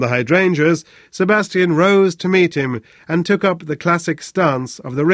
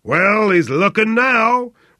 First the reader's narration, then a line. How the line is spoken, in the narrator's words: roared Flynn